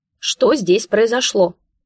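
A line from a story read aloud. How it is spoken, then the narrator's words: Barking over the noise. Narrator (Russian): Пытаясь их перекричать, гаркнула я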